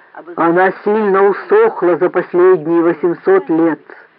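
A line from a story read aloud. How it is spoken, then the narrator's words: Booming drone. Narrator (Russian): прогудел Драмба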